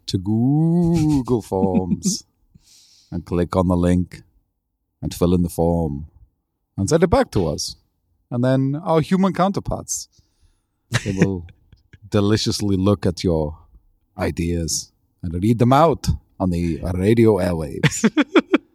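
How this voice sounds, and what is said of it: Dracula-style vampire accent. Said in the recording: “I really love your accent ... it's very, very Dracula-y ... It's a very specific Dracula.”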